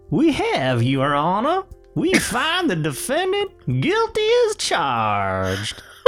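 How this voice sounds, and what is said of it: Put-on Southern American accent. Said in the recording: “I was running out of Southern accents to do.”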